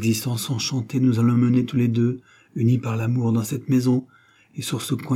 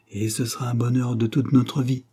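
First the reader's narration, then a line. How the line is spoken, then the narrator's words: Murmur. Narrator (French): murmura-t-elle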